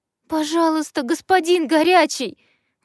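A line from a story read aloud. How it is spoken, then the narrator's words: Tearful girl pleading. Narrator (Russian): взмолилась заплаканная девушка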